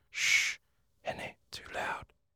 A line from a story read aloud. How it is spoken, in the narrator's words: he whispered